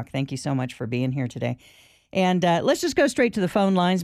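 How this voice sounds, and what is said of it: Strained, fading voice. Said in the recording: “I'm losing my voice already.”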